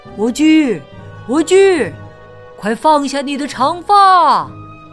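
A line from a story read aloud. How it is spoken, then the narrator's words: Calling, imitating witch. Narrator (Chinese): 学女巫叫道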